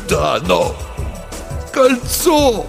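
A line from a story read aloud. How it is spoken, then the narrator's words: Adviser groaning. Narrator (Russian): простонал советник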